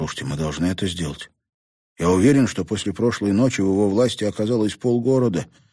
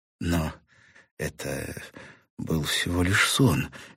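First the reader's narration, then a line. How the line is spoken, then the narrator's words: Uncertain objection. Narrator (Russian): неуверенно возразила Сьюзан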